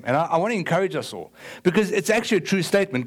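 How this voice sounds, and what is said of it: Strong, hard-to-understand accent. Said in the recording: “me and my accent ... nobody understands what he says”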